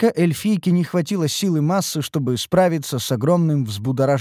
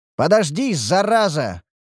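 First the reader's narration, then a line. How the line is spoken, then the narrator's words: Shouting. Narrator (Russian): выкрикнул я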